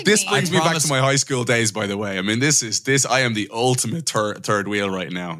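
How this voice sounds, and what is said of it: Dublin Irish accent. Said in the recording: “the Dublin accent there saying third wheel”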